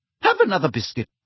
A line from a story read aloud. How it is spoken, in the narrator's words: she said irritably